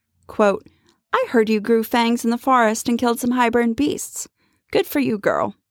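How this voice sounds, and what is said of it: Character voice for a book character. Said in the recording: “That was such a great Amryn accent.”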